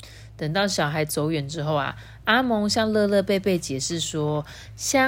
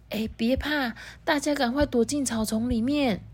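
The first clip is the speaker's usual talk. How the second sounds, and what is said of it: Quiet, hushed speaking voice. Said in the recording (Chinese): “阿蒙小声的说”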